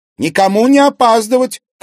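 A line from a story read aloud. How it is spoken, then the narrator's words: Shouting. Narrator (Russian): крикнула Конева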